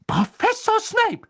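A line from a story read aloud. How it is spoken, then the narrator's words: Shrieked. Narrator (German): kreischte Madame Pomfrey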